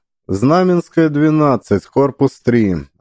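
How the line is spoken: Even, flat voice. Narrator (Russian): ровным голосом ответила

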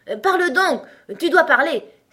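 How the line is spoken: King exclaiming. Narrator (French): s'écria le roi

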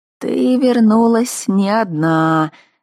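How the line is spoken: Approving. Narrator (Russian): одобрительно заметила она

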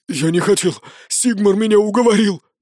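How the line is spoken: Babbling. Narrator (Russian): залепетал он

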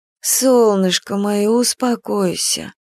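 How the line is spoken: Trying to speak tenderly. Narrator (Russian): пыталась нежно говорить Нюраня

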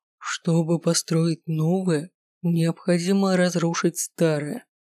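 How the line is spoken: Muffled voice. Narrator (Russian): глухо прозвучал его голос

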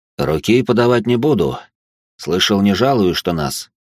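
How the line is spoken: Calm greeting. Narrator (Russian): Спокойно поздоровался он

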